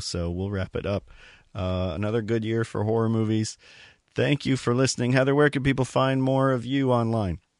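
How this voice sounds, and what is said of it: Strained voice, nearly gone. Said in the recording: “As you can hear, my voice is about to go”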